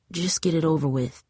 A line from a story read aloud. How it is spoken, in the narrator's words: mumbled when she couldn't take it anymore